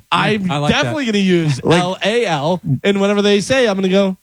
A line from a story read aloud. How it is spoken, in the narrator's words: I laughed a little